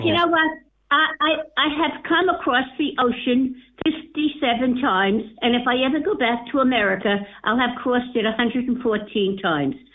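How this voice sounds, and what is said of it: American accent. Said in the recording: “judging by your accent ... I'm a Yank”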